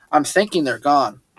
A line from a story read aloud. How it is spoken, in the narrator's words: I said